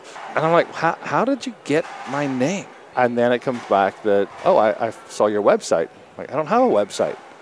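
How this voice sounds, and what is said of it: Northern Irish Belfast accent. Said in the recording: “you do have an accent, but you're not from Australia ... I grew up in Belfast in Northern Ireland”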